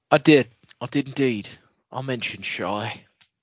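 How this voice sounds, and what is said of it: Put-on accent. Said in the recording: “Don't know why I'm doing this accent. ... It's in honor of Wayne, mate. ... that's weird.”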